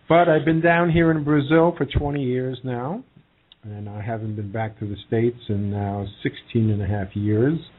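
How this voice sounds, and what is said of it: New York accent. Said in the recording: “I'm from New York. My accent's still there ... Nice accent”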